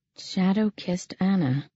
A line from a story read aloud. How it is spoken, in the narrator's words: I murmured